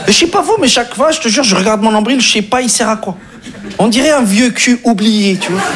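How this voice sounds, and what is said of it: Speaks with a marked accent. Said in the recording (French): “avec son accent de merde”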